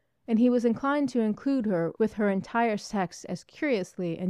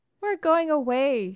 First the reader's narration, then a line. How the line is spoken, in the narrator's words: sobbed